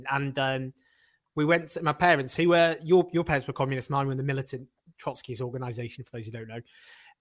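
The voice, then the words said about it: Scottish accent. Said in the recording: “my impenetrable Scottish accent”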